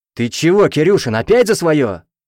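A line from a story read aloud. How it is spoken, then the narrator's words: Captain's roar. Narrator (Russian): взревел капитан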